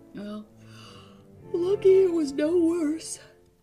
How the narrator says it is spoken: Brad said sleepily

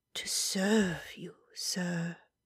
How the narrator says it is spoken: she murmured

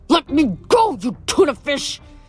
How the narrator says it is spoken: Hedge bellowed

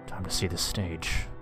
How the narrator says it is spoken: I mumbled to myself

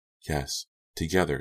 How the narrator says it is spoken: she said softly

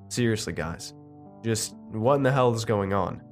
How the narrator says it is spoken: I said

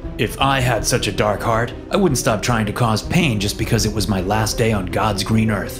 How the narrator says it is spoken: he sneered

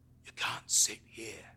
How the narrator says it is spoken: he rasps

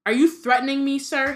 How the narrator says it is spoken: He said so loudly

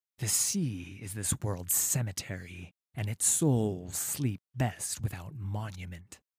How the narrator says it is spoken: said the serpent caller, his voice a grating hiss through the coral mask

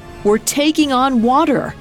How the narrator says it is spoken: Hymir cried out

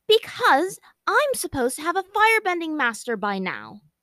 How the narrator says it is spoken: said angrily

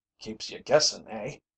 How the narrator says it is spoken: Tom chuckled

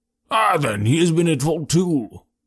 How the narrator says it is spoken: exclaimed Jones with evident satisfaction

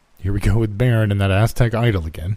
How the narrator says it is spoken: said Topher

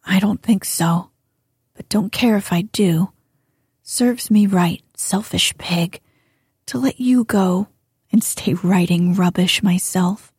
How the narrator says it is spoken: muttered Jo

